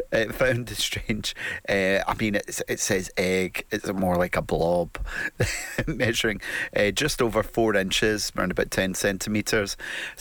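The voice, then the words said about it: Scottish accent. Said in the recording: “It sounds funny in a Scottish accent.”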